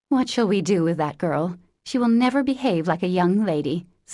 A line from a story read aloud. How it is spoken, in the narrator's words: sighed Meg, as she watched the race with a disapproving face